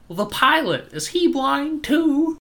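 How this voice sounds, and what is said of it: Old-timey transatlantic movie accent. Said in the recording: “in this old-timey kid movie accent ... this weird transatlantic old-timey accent”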